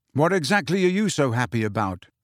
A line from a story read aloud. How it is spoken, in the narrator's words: Harry asked her